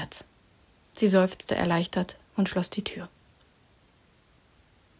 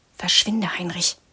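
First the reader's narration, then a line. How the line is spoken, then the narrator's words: Hissed. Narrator (German): zischte sie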